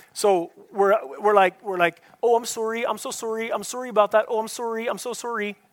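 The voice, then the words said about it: Put-on Canadian accent. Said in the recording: “we're like Diet Coke Canada ... Okay, you didn't get the accent?”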